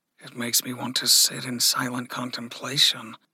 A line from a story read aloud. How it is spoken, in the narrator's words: Aether murmured